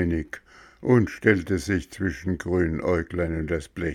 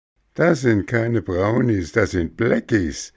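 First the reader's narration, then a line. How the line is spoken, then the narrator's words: Laughing. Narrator (German): lachte Grünäuglein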